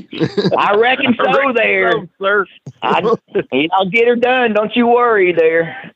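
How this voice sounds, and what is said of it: Tennessee Southern accent. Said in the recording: “my Tennessee accent”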